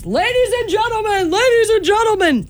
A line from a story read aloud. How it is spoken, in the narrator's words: Yells